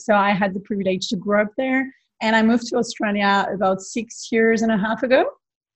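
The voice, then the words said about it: French accent. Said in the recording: “my accent,⟧ I'm originally from France, from the south of France”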